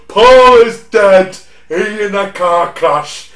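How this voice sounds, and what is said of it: Imitates another person's voice. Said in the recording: “that impression, I just realised how fucking bad that is”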